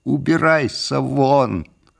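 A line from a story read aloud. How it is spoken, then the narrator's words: Deafening shout. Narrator (Russian): закричал я так громко, что у меня зазвенело в ушах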